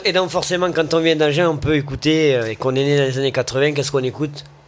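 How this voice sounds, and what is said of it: Strong southwestern French accent. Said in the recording (French): “j'ai un accent qui ressort énormément sur quand on nous écoute ... Je viens d'Agen à la base, donc ça s'entend plutôt bien”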